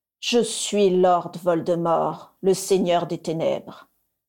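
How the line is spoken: Sepulchral voice. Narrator (French): dit-il d'une voix sépulcrale

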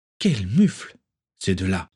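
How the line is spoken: Sighing. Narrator (French): soupira

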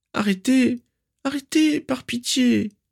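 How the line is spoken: Pleading. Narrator (French): supplia Narcissa

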